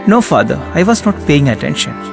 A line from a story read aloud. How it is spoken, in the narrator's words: she said